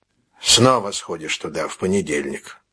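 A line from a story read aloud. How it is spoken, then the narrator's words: Sighing. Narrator (Russian): вздохнул он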